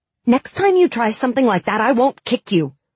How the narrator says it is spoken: said angrily

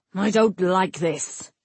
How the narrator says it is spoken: Nowick snarled

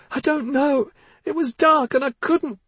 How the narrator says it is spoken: Missa cried

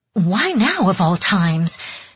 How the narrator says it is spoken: Mariko cried

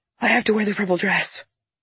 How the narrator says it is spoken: I literally woke up out of a deep sleep, gasping

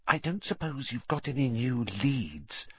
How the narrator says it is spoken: she added in a whisper, so that Madame Pomfrey couldn't hear her

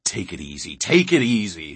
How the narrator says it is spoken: his father mimicked savagely

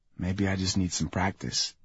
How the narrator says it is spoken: I whisper into her ear

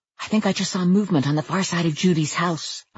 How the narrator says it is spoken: I whispered

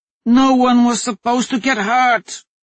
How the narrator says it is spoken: she shouted

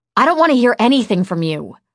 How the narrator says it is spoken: I snapped

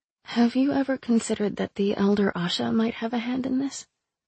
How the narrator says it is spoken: I asked quietly

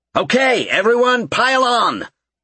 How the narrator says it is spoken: Gerald called out

